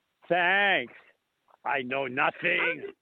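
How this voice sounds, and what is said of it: Poor German accent, Sergeant Schultz impression. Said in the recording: “my German accent is not very good then ... No, it's terrible ... That's better. It's not great, but it's better ... Sergeant Schultz from Hogan's Heroes”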